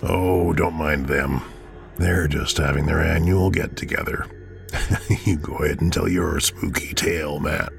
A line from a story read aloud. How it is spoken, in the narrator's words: he said with a chuckle